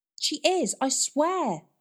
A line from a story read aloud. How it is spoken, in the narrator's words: pleaded Nan